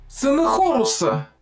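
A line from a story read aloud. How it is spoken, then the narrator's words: Shouted. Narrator (Russian): закричала Талап Вита-37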